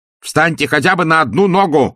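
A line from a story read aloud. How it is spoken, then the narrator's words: Shouted. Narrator (Russian): крикнул он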